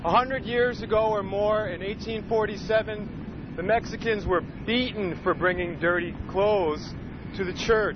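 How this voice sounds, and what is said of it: Emotional, strained speaking voice. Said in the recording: “I'm sorry, I'm getting emotional”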